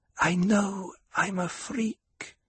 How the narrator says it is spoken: Alia whispered

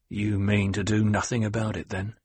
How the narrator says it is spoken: Halleck sneered

